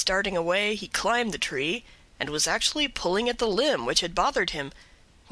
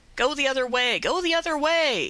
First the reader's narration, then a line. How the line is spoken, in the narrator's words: cried out